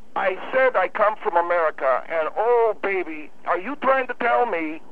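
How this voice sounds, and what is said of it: Noticeable foreign accent, possibly German. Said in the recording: “you got an accent ... your accent is very noticeable ... I asked you if you come from Germany”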